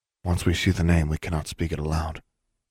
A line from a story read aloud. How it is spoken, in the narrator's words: he said quietly